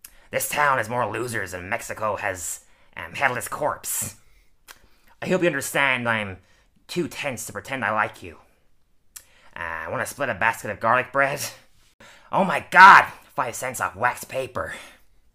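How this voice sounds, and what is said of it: Masculine cartoon character voice impression. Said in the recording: “Not a bad impression. ... a very masculine voice, even though they're voiced by a woman.”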